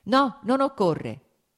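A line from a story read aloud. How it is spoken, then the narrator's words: Quick repeated shout. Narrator (Italian): gridò subito di nuovo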